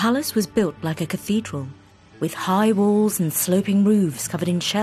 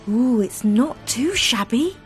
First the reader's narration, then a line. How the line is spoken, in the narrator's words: gasped the unwilling mermaid, weary from trying to swim as fast as the rest